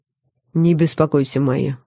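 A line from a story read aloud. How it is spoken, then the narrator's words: Even tone. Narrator (Russian): ровным тоном сказал Михаэль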